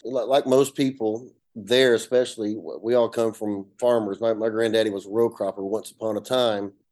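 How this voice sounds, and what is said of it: Appalachian North Georgia accent. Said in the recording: “i come from a little small town in, in north georgia you can hear my accent it's uh you know an appalachian mountain area the foothills”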